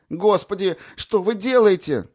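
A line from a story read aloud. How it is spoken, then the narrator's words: Hysterical cry, landlady. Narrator (Russian): истерическим голосом вскрикнула квартирная хозяйка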